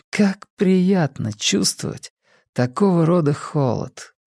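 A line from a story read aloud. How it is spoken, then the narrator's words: Mutter. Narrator (Russian): пробормотала она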